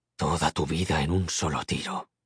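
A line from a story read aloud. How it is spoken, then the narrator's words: Samurai murmuring. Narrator (Spanish): murmuró el samurái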